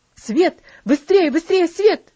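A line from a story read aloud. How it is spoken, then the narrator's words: Shouting. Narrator (Russian): закричал он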